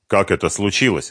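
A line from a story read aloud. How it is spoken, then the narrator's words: Grim question. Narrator (Russian): мрачно спросил Дронго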